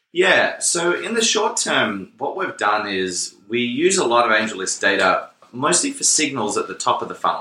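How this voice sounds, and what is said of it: Australian accent. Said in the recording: “And you're also Australian ... I'll play that accent for a while longer”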